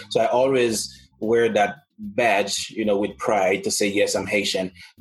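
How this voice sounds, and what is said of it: Haitian non-American accent. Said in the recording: “by the way I speak, everybody can already see that I'm not American because mm-hmm. of my accent”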